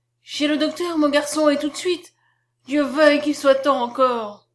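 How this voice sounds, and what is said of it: Loud, feigned charitable emotion. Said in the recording (French): “il prononça très haut, avec un accent de charitable émotion”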